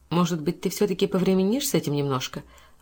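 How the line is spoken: Timid suggestion. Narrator (Russian): робко предложила она дочери

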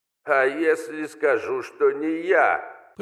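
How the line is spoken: Creaky voice behind door. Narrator (Russian): проскрипело с той стороны двери

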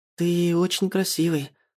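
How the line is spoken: Tired, tender female voice. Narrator (Russian): устало, нежным голосом произносит она

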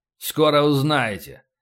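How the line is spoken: Gloomy promise. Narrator (Russian): мрачно пообещал полубой

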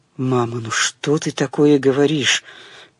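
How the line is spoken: Stunned mutter. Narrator (Russian): пробормотал совершенно ошеломленной речью матери Леня

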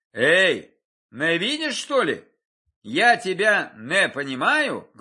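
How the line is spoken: Menacing question. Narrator (Russian): грозно спросил Багратион

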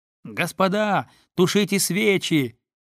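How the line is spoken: Sudden very loud shout. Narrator (Russian): закричал вдруг дерпский студент так приемисто и громко, как только можно было крикнуть тогда, когда бы мы все кричали

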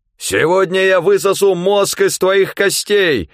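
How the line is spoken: Yelling. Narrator (Russian): орало оно

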